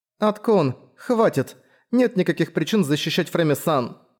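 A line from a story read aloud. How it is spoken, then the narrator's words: Strained choked voice. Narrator (Russian): сказала Ролония сдавленным голосом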